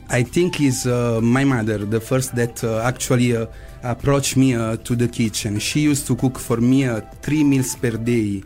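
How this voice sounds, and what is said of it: Foreign accent. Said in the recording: “I just love your voice, your accent, the way he said my name.”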